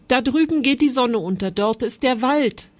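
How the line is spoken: Calling out. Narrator (German): rief er

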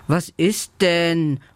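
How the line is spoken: Confused, sleepy murmur. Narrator (German): murmelt Lela verwirrt

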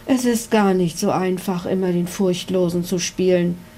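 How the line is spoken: Sighing. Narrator (German): seufzte Ritter Kunibert

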